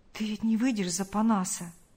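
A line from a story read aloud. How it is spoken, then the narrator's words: Timid question. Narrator (Russian): робко спросил Павел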